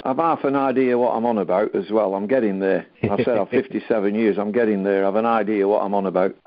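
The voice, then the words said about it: Distinctive deep accented voice. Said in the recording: “your voice is distinctive ... It's a distinctive voice. You know, it's got an accent to it. It's quite deep.”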